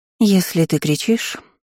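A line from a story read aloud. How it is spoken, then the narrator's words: Sighing. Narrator (Russian): вздохнула Вивьен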